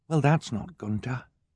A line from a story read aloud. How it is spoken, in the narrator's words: Violet whispered